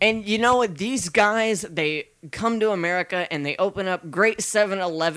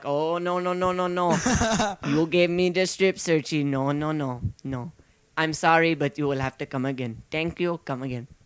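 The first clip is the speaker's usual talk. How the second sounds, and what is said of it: Bad put-on Indian accent. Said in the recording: “that's a very terrible Indian accent”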